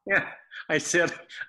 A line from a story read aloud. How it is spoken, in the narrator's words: I laughed